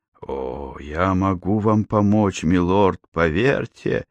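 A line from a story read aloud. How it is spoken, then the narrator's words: Hoarse giggling. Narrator (Russian): Бенлоу захихикал охрипшим голосом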